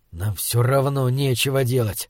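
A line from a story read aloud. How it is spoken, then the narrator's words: Hiss. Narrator (Russian): прошипел он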